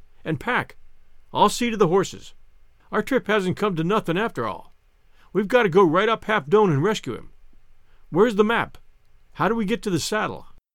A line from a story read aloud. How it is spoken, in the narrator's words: cried